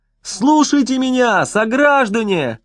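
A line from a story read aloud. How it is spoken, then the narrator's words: Persistent yelling. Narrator (Russian): Хигги вопил и вопил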